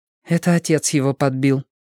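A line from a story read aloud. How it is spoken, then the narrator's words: Grim muttering. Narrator (Russian): мрачно приговаривала Робин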